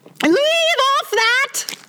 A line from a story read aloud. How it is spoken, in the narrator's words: screamed the queen